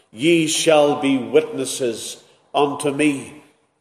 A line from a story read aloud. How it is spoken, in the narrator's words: the Saviour said